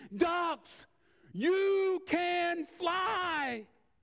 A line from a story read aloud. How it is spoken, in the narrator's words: screamed